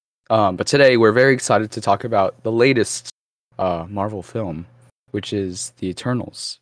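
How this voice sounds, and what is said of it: Congested, stuffy-sounding voice. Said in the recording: “I have a cold, so that's why my voice sounds a little different”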